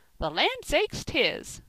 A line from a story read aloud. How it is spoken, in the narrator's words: cried Mrs